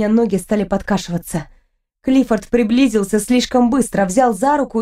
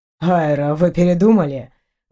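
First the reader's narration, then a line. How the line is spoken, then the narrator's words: Mocking question. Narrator (Russian): Насмешливо поинтересовался Эйнар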